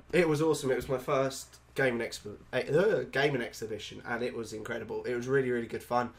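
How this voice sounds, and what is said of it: Sick-sounding voice. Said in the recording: “I'm a bit ill, so excuse my voice”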